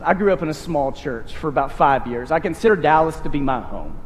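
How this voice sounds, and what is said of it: East Texas accent. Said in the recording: “that's where I developed some of the accent that you hear, I lived out in the way out in East Texas, deep in the Piney Woods”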